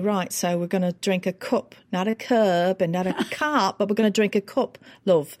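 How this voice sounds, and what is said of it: Northern English accent. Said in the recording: “Tell me the Northern accent.”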